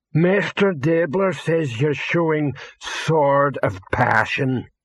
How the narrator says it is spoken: rumbled a voice

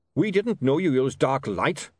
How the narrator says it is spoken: snapped Goodmountain

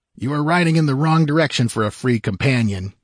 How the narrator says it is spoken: grunted Valbroso

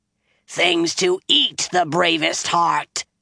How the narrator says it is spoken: she growled

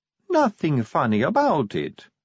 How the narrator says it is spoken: said Sally sweetly

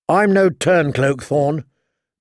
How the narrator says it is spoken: John said coldly

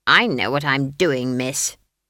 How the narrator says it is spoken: snapped Granny

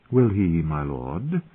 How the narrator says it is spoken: Caitlin said coolly

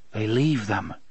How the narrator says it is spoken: Cuthbert muttered

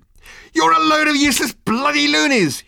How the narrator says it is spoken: he shouted

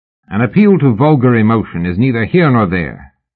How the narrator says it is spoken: Mallory said hotly

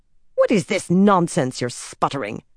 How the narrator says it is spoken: Elida spat

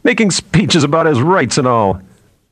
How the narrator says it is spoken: one of the other men said, laughing

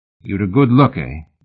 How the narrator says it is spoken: Mallory asked

